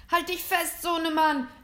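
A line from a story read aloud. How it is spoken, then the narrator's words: Called out. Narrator (German): rief Mr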